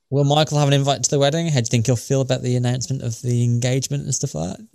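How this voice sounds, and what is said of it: British accent. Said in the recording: “why is this guy putting on a British accent? I was like, because I'm British.”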